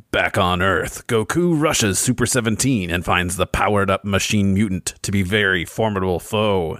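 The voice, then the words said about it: Dramatic narrator voice. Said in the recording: “do an impression. I'm going to do a narrator thing.”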